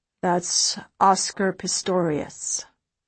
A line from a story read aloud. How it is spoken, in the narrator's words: Cairo says softly